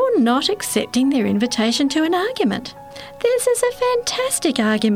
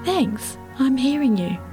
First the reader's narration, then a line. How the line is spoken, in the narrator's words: quietly and sincerely say